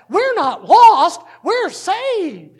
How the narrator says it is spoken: the lady who was with a pianist for the singing group rolled down her window and yelled out

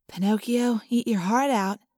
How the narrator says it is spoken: Cassie whispered

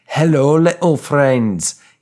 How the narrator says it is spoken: he bellowed loudly

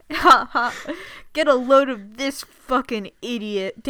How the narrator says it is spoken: Danny laughed

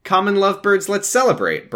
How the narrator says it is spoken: Brian said cheerfully

